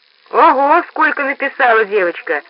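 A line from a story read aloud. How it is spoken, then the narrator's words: Laughing. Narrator (Russian): засмеялся дядя Пост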